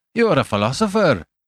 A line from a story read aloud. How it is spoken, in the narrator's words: he cried